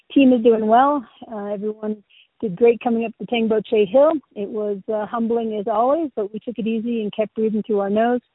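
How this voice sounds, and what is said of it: Slightly hoarse voice. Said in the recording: “sounding a little bit hoarse, but that's just because I got a little bit of a cough”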